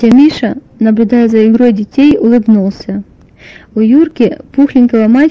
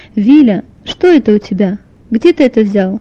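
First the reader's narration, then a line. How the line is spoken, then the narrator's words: Stern mother's question. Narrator (Russian): спросила строго мама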